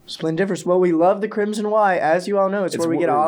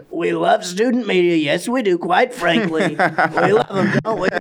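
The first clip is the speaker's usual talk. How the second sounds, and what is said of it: Imitates a president's voice. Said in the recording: “do a little impression of a president”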